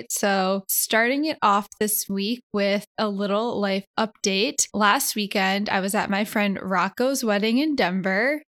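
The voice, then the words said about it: Slightly off, impaired speaking voice. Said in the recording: “I'm coming at you live right after a root canal, so apologies if my voice is a little bit off right now”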